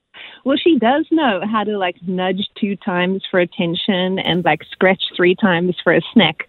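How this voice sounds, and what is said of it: Foreign accent. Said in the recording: “I have a foreign accent.”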